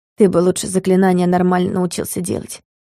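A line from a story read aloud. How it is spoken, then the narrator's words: Grumbled. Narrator (Russian): Буркнула я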